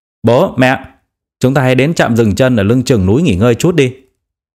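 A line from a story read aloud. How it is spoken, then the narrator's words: Loud. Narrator (Vietnamese): anh ta lớn tiếng nói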